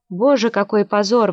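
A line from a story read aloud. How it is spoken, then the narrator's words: Wailing shriek. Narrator (Russian): вопила Флоранс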